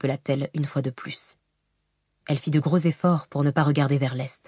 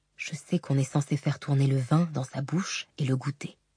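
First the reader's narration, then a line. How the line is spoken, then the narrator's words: Murmured. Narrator (French): murmura-t-il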